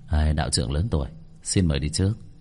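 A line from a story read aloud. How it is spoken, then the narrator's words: Smiling polite speech. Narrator (Vietnamese): khẽ mỉm cười, đưa tay nói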